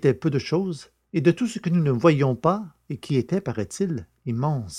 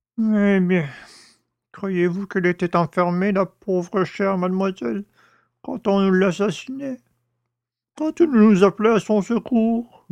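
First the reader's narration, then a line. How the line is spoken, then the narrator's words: Moaning. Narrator (French): gémit le père Jacques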